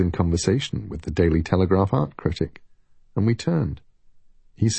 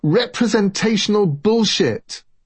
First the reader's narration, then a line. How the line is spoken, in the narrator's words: a striking red-haired woman to whom I had not yet been introduced began shouting